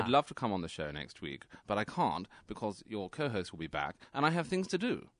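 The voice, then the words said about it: Aristocratic high received pronunciation accent. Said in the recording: “designated, high received pronunciation ... that's the real aristocrat”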